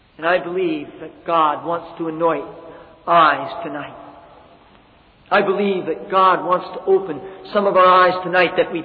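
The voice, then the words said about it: American accent, loud voice. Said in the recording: “It will be stained by an American accent. It may be stained by a voice that's too loud.”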